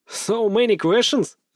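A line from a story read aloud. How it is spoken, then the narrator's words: Laughing. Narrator (Russian): рассмеялся я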